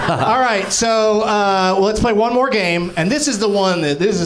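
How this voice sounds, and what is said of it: Usual voice. Nothing is said of it.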